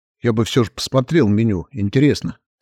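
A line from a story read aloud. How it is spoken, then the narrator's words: Plain. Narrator (Russian): сказал Эдриан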